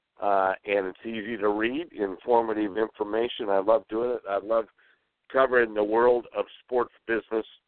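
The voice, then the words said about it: Hoarse, raspy voice. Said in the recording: “Sorry for my voice tonight. I've got a little hack”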